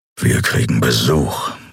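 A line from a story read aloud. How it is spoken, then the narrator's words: Growl. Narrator (German): knurrte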